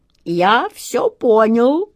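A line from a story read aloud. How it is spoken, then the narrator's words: Sobbing. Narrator (Russian): рыдая, проговорил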